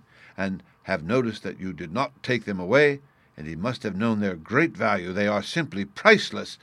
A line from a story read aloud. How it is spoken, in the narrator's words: he exclaimed in sudden excitement